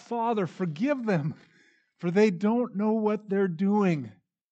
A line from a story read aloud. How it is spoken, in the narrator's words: As Jesus hung there in unimaginable pain and agony, he cried out